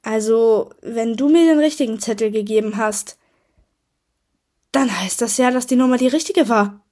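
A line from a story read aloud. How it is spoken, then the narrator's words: Exclaimed. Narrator (German): rief aus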